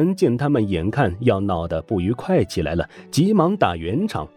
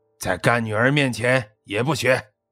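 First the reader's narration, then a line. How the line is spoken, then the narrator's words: Stern sharp voice. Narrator (Chinese): 他厉声说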